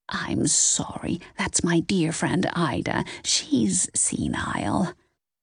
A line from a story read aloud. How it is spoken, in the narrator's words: Nance was whispering in her ear